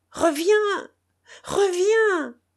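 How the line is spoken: Group shouting. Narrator (French): criaient les camarades

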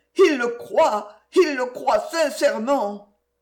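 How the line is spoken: Exclaiming. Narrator (French): s'écria

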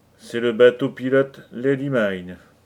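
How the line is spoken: Grumbling. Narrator (French): grommela Lou Larsen

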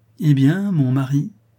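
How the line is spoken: Said cheerfully. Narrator (French): dit gaiement Rigolette à Rodolphe

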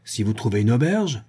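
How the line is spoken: Abrupt exclamation. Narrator (French): s'écria l'invalide, entrant brusquement dans la conversation

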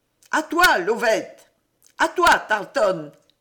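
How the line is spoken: Shouts from all sides. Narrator (French): criait-on de tous côtés

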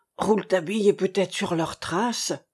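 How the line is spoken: Sighed. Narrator (French): soupira Cornouille

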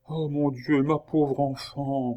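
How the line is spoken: Murmur. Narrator (French): murmura la fermière

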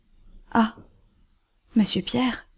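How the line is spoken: Choked voice. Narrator (French): fit-il d'une voix étranglée

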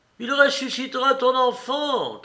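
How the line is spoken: Crowd shouting. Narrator (French): crie le peuple

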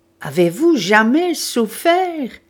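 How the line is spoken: Dreadful voice, crying out. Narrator (French): s'écria Syme d'une voix épouvantable

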